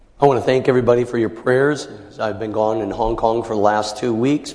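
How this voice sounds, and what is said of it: Strained, impaired speaking voice. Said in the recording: “my voice is challenged”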